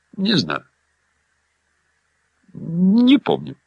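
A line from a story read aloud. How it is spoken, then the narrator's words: Uncertain mumble. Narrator (Russian): неуверенно бормотнула Эмма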